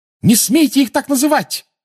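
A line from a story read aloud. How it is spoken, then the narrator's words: Furious shout. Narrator (Russian): разъяренно крикнула Гермиона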